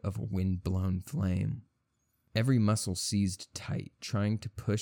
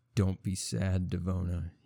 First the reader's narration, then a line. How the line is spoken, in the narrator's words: said